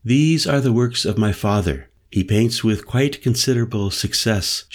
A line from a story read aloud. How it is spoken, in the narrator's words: said evenly